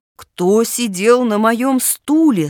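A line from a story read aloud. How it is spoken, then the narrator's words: Deep low voice. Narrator (Russian): спросил медведь-папа своим низким голосом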